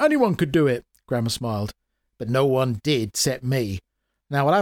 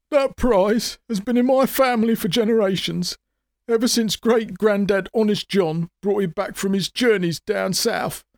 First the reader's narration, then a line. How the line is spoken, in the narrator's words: sobbed the showman, tears running down his cheek